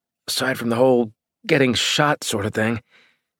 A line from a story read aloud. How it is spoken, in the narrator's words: he said through gritted teeth